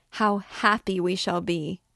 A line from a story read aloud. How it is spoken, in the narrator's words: she again began to clap her hands, to laugh and cry